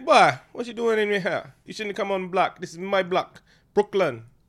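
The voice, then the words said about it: Poor put-on Jamaican accent. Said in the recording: “the Jamaicans ... that's a bad accent”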